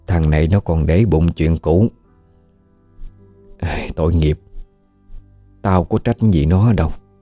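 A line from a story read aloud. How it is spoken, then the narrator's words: Old woman's soft murmur. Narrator (Vietnamese): Bà thủ thỉ nói với anh cứ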